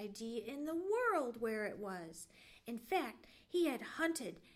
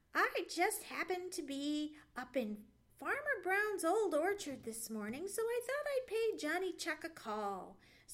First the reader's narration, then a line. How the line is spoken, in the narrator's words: said Sammy, and chuckled